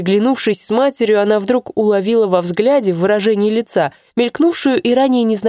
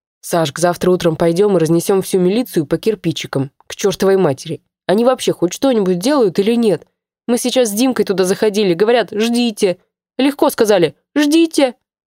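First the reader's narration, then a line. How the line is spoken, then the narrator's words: Quiet. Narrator (Russian): Сказала тихо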